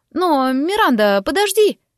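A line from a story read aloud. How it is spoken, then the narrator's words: Exclamation. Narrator (Russian): воскликнула она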